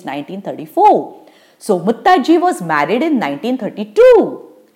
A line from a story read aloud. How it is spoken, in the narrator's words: cried Putti